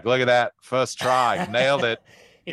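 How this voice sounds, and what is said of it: Put-on Australian accent. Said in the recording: “in an Australian accent.”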